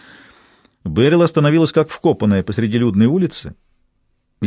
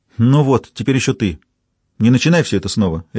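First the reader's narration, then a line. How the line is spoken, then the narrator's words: Sharp, over shoulder. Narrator (Russian): резко бросила Берил через плечо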